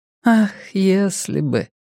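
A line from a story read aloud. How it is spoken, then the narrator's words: Sigh. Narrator (Russian): вздохнула Вера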